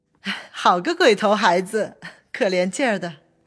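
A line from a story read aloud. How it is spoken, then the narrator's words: Several voices. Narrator (Chinese): 薛姨妈等都说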